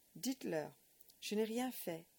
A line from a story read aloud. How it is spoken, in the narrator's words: cried the boy, appealing to Edith